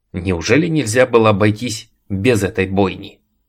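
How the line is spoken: Irritated question. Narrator (Russian): раздраженно спросил Лумис

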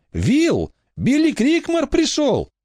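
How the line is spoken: Shouted. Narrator (Russian): крикнула

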